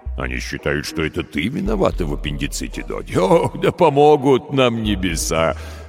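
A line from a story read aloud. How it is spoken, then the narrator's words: Laughing. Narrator (Russian): Рассмеялся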